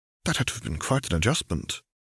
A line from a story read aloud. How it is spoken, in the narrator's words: murmured Nova in between sips of milk